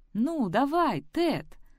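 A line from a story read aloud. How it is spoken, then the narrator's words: Pleading. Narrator (Russian): взмолилась Сэм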